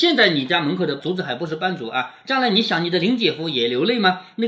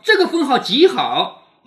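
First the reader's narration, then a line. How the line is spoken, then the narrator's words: Smiling. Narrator (Chinese): 探春笑着说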